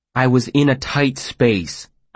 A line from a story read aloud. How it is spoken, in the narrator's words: I said a little testily